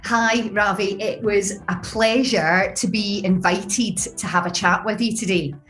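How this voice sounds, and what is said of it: Scottish Glasgow accent. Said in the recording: “that Scottish accent come through. and Glasgow, right? ... Definitely Glasgow, born and bred.”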